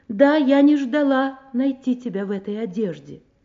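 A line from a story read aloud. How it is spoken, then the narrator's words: Loud. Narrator (Russian): Я громко сказала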